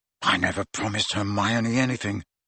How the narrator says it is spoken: Ron mumbled

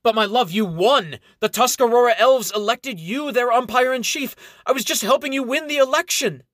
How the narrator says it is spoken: he shouts out to her

